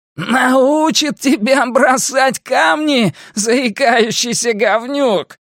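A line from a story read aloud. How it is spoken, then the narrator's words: Shouting laughter. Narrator (Russian): Генри то ли кричал, то ли смеялся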